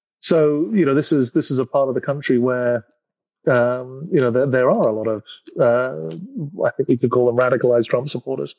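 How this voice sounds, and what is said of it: Non-American accent. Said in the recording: “despite the accent, I live in the States”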